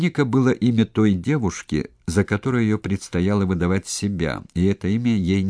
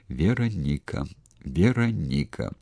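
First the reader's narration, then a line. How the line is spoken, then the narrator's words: Barely audible repetition. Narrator (Russian): Маша чуть слышно шевеля губами, повторяла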